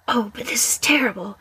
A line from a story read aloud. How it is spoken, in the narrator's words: whispered Flitwick